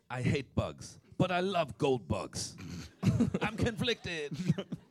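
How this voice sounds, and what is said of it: Put-on accent. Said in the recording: “Was that accent okay? ... That was okay, yeah.”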